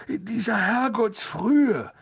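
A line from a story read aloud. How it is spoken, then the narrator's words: Croaking. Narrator (German): krächzte Harry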